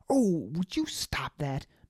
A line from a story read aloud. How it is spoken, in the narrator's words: Baz shouted at the man